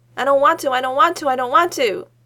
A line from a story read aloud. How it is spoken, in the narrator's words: Mako says, all in one breath